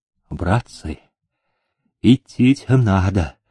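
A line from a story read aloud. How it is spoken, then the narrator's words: Quiet, ingratiating voice. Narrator (Russian): заговорил он тихим, вкрадчивым голосом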